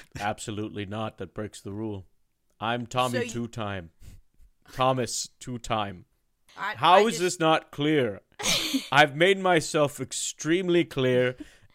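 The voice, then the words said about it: Speaks with a noticeable foreign accent. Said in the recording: “You have a beautiful accent.”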